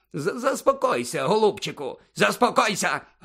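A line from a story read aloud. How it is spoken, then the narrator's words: Barked. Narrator (Ukrainian): гаркнув Фадж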